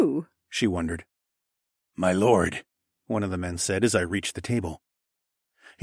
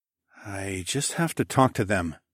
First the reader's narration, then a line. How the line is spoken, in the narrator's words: I murmured